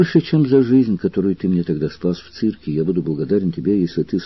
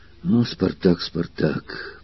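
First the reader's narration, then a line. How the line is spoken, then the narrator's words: Angry whisper. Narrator (Russian): прошептал Крикс, и глаза его засверкали гневом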